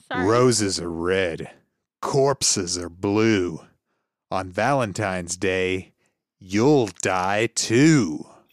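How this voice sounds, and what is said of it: Creepy voice. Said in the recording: “creepy voice”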